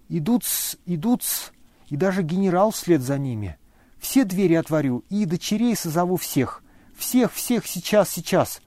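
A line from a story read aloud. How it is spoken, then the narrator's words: Frightened whisper. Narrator (Russian): испуганно шептал Лебедев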